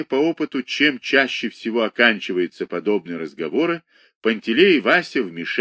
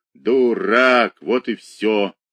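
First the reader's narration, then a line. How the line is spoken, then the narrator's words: Hoarse wheeze. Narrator (Russian): просипел Емельян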